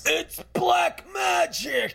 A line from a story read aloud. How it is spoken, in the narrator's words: He shrieked